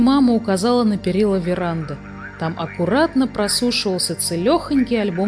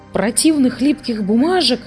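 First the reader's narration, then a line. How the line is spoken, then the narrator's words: Exclamation. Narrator (Russian): воскликнул Хемуль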